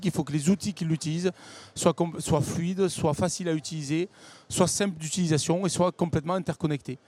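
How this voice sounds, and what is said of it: Sing-song southern French accent. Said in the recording (French): “votre accent chantant. Vous venez du Sud ... cet accent”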